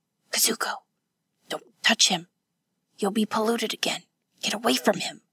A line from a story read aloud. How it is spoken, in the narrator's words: Hatsumi whispered from the stretcher